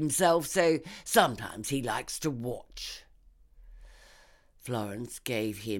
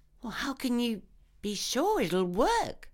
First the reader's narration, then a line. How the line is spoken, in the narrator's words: She asked, barely keeping her voice steady